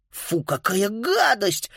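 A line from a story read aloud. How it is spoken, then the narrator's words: Exclamation. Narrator (Russian): воскликнула Фрида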